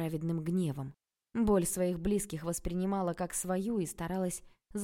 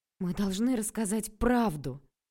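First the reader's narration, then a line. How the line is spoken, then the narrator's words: Angry voice. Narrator (Russian): Злым голосом сказала я, вспоминая, как самозабвенно целовались эти двое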